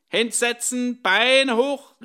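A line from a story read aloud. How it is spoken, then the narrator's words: Called from the door. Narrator (German): rief die Fango-Frau von der Tür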